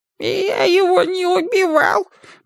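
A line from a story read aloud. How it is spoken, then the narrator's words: Faltering babble. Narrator (Russian): пролепетал Семель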